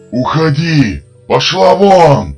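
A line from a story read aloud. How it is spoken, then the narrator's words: Screaming in a strange voice. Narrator (Russian): Кричал уже не своим голосом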